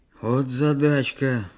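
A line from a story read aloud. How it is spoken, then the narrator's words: Playful sigh, old man. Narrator (Russian): шутливо вздохнул дед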